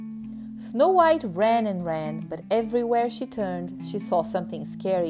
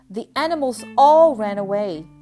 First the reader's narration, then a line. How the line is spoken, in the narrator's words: she cried